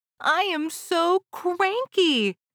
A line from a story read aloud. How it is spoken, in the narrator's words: she cried out